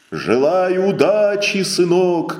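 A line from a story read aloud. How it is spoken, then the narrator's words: Shouted. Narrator (Russian): крикнул проводник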